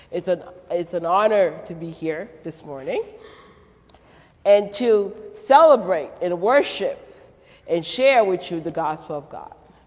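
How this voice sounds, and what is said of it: Haitian Creole French and Brooklyn accent. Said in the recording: “the accent that you're picking up is a French, Haitian, Creole, Brooklyn, New York accent”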